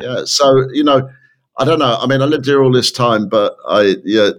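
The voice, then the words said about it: English accent, from London. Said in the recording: “south of London... accent's not going anywhere. It's the same... It's something to do with the way you say them”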